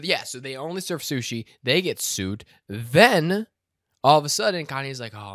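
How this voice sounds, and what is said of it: Usual voice. Nothing is said of it.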